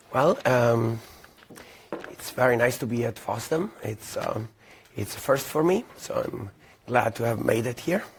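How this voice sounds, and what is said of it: Voice audibly worn, unwell. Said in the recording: “as you can hear from my voice, I had a little bit of a tough time traveling”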